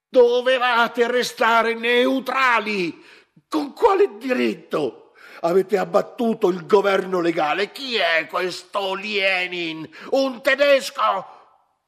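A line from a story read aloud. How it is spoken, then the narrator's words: Shouting at full volume. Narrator (Italian): il capitano, urlando con tutta la forza dei suoi polmoni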